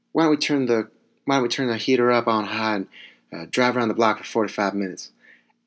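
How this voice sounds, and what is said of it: Badly done put-on accent. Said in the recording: “And in that accent, that was a terrible accent”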